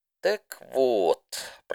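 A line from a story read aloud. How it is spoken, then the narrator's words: Drawling. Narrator (Russian): протянула Рэмбо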